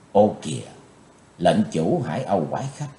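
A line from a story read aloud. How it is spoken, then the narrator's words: Soft involuntary exclamation. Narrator (Vietnamese): Chí Tôn bất giác kêu khẽ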